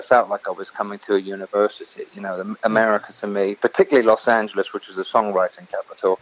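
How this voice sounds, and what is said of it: Mixed English and American accent. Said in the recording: “You're from England? I couldn't tell by your accent. You sound just like us ... I thought you were from Niota, Tennessee there ... Yeah, or New York. It's between the two. It's a strange mixture ... I've still got that Hampshire”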